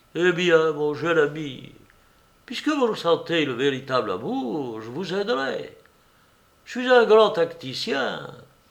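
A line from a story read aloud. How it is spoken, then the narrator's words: Gentle. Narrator (French): Monsieur Tudesco lui dit doucement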